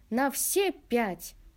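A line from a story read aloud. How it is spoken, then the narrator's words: Cheerful, half-joking. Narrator (Russian): бодро ответил я, перенимая его полушутливую манеру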